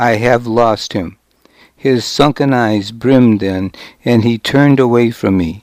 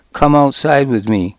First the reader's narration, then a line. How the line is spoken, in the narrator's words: I said